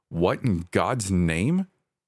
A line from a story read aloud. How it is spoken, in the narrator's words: said